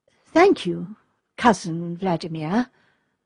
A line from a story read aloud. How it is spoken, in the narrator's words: answered the princess, rather coldly